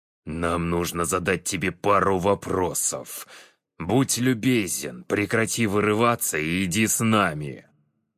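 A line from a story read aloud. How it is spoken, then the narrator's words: Growled. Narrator (Russian): прорычал Теодор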